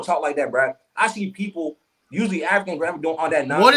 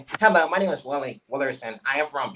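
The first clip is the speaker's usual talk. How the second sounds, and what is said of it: Put-on white American accent. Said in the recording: “when you pick up the white man's accent, quote unquote”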